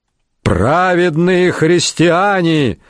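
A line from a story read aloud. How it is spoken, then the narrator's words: Shouted. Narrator (Russian): закричал он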